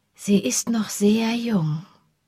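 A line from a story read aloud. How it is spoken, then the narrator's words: Gentle voice. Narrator (German): sagte sie mit sanfter Stimme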